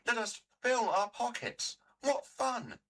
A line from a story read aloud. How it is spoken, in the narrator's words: they cried